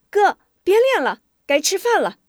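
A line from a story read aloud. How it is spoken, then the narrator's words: Young girl calling out. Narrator (Chinese): 一个十五六岁的俊俏姑娘冲着院子喊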